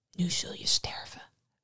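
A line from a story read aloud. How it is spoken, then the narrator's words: Whispered. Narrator (Dutch): fluisterde hij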